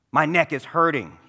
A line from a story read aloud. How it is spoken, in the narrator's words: he snarled in pain